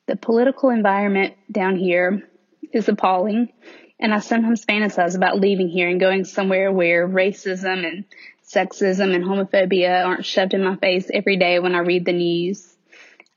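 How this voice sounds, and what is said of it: Southern American accent. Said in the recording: “in case my accent doesn't make it obvious, I do live in the South, and I have lived in the South all of my life”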